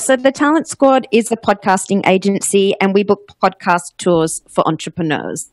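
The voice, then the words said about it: Australian accent. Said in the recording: “you might notice by my accent, I'm Australian”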